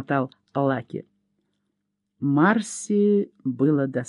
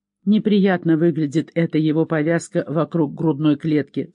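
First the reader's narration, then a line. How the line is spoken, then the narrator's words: Plain. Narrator (Russian): сказала Лори Тайлер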